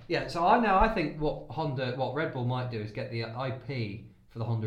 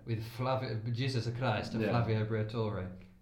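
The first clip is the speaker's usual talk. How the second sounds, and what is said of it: Imitates another person's accent, done well. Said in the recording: “I'd love to talk like Flavio ... you don't do a bad accent, actually ... you don't actually do a bad accent.”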